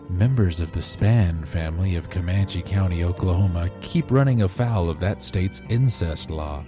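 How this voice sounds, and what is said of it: Smooth public radio announcer voice. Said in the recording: “I don't want it to be too smooth. This is my public radio voice.”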